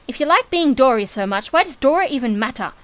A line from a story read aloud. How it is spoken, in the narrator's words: Charlie snapped